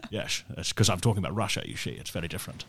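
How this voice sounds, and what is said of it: Sean Connery impression. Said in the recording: “What sort of Russian accent is that? ... That's Sean Connery.”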